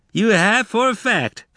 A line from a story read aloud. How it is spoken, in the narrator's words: Frog said, giggling